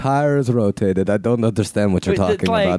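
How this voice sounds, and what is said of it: Put-on Russian-Arabian mix accent. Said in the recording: “It's kind of Russian, Arabian mix. I don't know what my accent is.”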